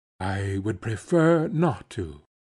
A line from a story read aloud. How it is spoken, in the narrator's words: Bartleby, in a singularly mild, firm voice, replied